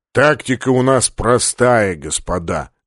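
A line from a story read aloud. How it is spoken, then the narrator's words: Lazy muttering through teeth. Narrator (Russian): лениво процедил полубой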